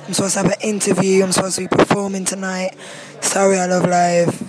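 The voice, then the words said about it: Hoarse, mostly lost voice. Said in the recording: “I've lost my voice.”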